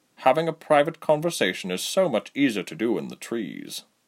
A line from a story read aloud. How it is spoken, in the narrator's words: Basim muttered